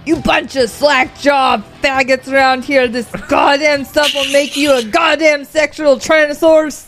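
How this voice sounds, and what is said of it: Imitates another person's voice, sounds Russian. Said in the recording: “Your Jesse Ventura is pretty Russian. I love it. ... That she went into Arnold.”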